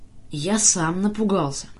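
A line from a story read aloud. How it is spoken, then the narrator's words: Grumbling. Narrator (Russian): буркнул Санька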